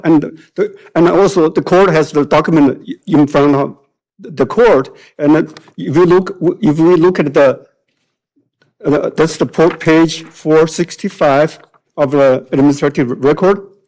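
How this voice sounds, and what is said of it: Chinese accent in English. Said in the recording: “judging by my accent, you know that I'm a native Chinese speaker”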